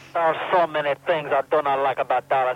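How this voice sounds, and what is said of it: Put-on Russian accent. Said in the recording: “my unstable accent back to Russia”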